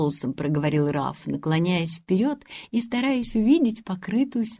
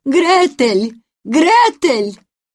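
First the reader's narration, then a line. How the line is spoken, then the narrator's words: Calling out. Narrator (Russian): Тетушка Бринкер крикнула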